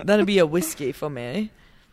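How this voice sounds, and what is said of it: Put-on Australian accent. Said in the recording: “That just went from like a British to an Australian accent.”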